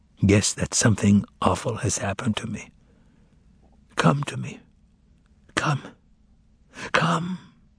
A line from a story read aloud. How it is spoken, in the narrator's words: I whispered